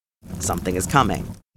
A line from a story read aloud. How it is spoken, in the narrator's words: Jason said, with a deep rumble of his flames